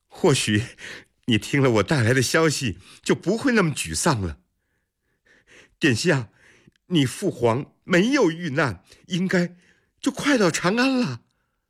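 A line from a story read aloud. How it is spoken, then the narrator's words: Laughing. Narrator (Chinese): 阿史那云笑着说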